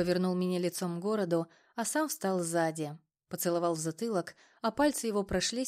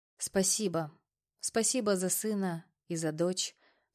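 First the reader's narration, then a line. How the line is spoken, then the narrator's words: Soft singing. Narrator (Russian): пропела я тихонько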